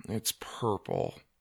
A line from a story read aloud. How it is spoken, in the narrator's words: Doug mumbled